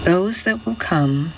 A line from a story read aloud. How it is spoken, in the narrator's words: she said in a tired voice